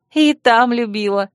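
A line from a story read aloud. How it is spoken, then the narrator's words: Laughing. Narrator (Russian): рассмеялась я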